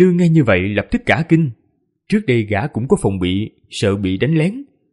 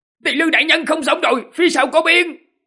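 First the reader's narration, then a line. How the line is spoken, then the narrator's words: Hurried loud shout. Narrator (Vietnamese): vội vàng hét lớn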